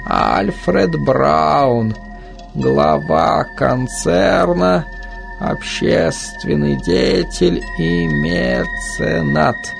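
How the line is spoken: Hoarse reading. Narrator (Russian): хрипло прочитала она

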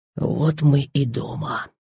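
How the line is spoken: Whisper. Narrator (Russian): шепнул он

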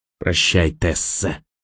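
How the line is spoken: Menacing hiss in ear. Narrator (Russian): прошипел он ей в ухо

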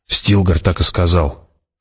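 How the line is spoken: Doubtful muttering. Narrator (Russian): пробормотала она, однако в ее голосе звучало недоверие

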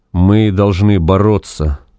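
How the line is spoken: Even voice. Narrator (Russian): ровным голосом произнес Вепрь

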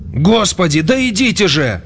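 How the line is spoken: Shouting. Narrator (Russian): закричал он

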